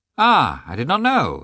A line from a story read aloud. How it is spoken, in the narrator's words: exclaimed Vronsky